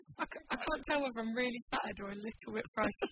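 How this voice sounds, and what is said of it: Mixed Kent and West Country accent. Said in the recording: “What specific accent are we hearing ... I'm from Kent, which is sort of near South East London, but I've lived in the West Country for 3 years, so I'm like a mongrel”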